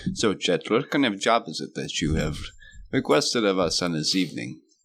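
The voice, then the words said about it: Put-on character accent. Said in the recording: “I'm going to do my accent.”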